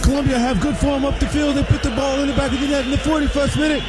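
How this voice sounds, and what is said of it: British soccer announcer accent. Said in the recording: “All the accent I'll do is British. That's it. The British soccer announcers.”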